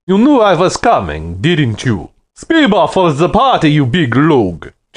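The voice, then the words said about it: Booming voice, Russian accent. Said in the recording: “his voice boomed like a backfiring car with a Russian accent.”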